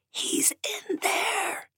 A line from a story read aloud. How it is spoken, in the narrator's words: In an exaggerated stage whisper, she said